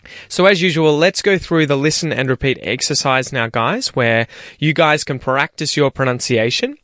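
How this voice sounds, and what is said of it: General Australian accent. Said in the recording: “I have a general Australian accent”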